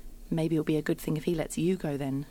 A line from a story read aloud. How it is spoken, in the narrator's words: says